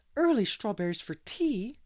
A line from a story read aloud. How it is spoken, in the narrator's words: exclaimed Miss Lavender